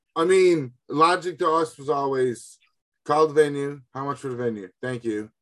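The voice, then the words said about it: Newfoundland accent. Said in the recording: “from Newfoundland ... forgive the accent”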